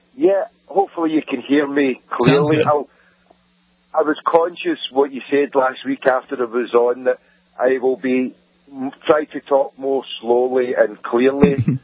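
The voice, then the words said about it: Very thick Scottish accent. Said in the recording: “it is the most Scottish accent I've heard ... it's thicker than Scrooge McDuck”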